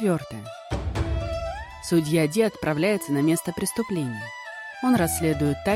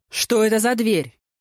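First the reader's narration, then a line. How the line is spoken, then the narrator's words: Bark. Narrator (Russian): рявкнул судья Ди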